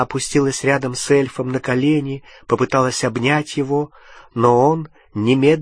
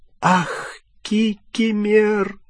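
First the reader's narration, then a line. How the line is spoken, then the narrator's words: Tearful moan. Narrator (Russian): простонала расплакавшаяся Гермиона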